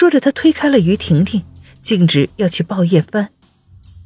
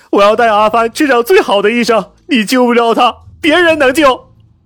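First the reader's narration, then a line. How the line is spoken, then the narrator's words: Hoarse roaring. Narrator (Chinese): 嘶声竭力的吼道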